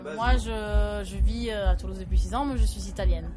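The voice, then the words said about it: French with an Italian accent. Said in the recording (French): “C'est sympa, ton accent.”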